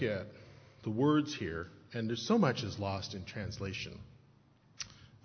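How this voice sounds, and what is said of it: Usual voice. Nothing is said of it.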